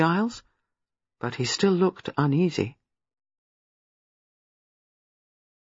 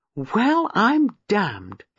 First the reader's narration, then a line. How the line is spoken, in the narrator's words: exclaimed Giles